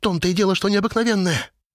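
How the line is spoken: Sharp interruption. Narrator (Russian): резко перебила она

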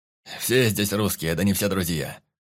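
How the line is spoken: Angry voice. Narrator (Russian): Зло проговорил голос

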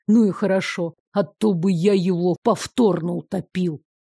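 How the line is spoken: Quiet, through gritted teeth. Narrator (Russian): Демьян процедил тихо и сквозь зубы

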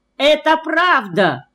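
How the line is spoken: Ringing shout, unable to hold back. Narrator (Russian): звонко крикнул я, не выдержав

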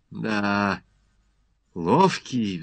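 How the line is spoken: Sigh. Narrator (Russian): вздохнул Иван

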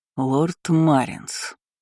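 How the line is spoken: Strained, polite through teeth. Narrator (Russian): выдавил сквозь зубы, но все еще сохраняя вежливость

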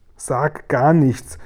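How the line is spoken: Pitiful call. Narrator (German): rief der arme Guri

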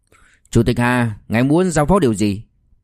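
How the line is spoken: Cold. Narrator (Vietnamese): Liêu Kinh Vũ lạnh lùng nói

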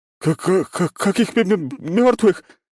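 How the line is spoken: Howl. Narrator (Russian): взвыл он

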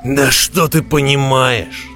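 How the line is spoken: Snapped. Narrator (Russian): огрызнулся Роди

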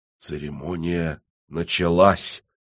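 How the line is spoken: Whisper. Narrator (Russian): прошептал Авадонна

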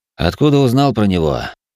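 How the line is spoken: Lazy question. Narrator (Russian): лениво поинтересовался

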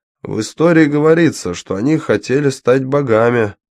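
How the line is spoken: Plain. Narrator (Russian): сказал он

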